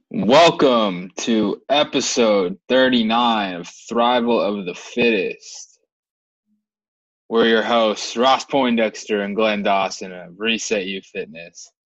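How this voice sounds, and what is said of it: Polished radio announcer voice. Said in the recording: “You have a good radio voice.”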